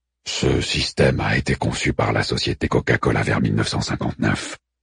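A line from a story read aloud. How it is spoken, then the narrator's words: Growled. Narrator (French): gronda Orfudio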